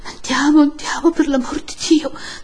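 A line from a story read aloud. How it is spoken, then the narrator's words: Faint pleading voice. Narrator (Italian): Lucia chiamava Renzo con voce fioca e diceva pregando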